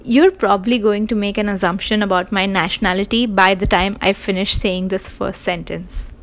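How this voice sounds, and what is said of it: South Asian English accent. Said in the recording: “My accent will give it away. Now that I guess I have established that I'm a South Asian”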